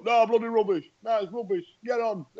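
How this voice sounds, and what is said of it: Whingeing complainer character voice. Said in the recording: “Every time I do that voice... That's what I'm doing an impression of. A good chunk of those people on those forums... whingers”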